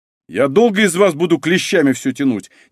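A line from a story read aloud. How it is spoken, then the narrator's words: Exasperated bark. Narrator (Russian): не выдержав, гаркнул Малинин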